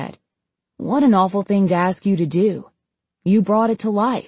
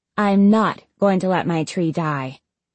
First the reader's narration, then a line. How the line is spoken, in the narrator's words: she said firmly